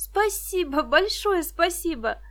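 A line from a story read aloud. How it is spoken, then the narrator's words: Touched cooing. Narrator (Russian): растроганно проворковала Виктоша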